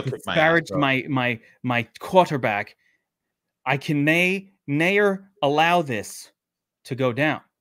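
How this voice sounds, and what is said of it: Attempted British accent, not convincing. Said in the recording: “it always sounds more civilized in a British accent, right? ... Was that a British? I don't know. ... Well, you were trying to. ... British is not one of my specialties.”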